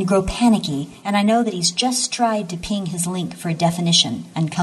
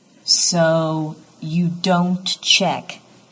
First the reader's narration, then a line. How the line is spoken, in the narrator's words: Dix says slowly